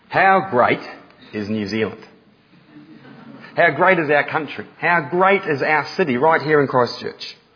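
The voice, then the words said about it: Slight Australian-sounding accent. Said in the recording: “I may have a hint of an Australian accent, I am not Australian”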